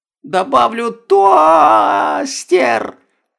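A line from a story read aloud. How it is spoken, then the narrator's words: Shrill squeal. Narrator (Russian): взвизгнула Стефания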